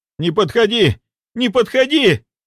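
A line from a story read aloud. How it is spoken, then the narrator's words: Shouting. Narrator (Russian): закричал Роман Дмитриевич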